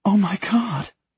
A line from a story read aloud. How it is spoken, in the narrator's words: she gasps